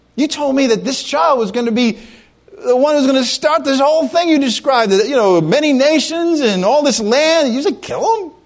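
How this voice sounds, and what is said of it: Weak put-on Jewish accent. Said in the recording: “I can't do the Jewish accent too good.”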